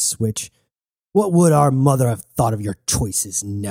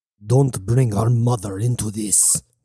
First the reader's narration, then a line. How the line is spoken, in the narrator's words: growled Nebu